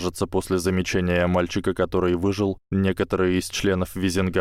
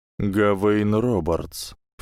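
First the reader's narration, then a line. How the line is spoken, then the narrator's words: Silky, insinuating. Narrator (Russian): вкрадчиво сказал Люциус Малфой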